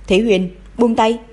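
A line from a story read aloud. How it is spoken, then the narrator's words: Cold sharp shout. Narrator (Vietnamese): nàng thì lạnh lùng quát lên với y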